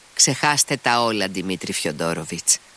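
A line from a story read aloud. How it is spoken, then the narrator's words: Interrupting, decisive tone. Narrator (Greek): τον διέκοψε με αποφασιστικό τόνο η κυρία Χοχλάκοβα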